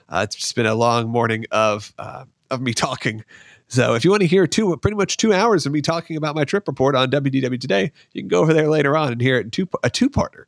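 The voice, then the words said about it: Hoarse, partly lost voice. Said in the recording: “I've kind of lost my voice ... if my voice sounds a little hoarse”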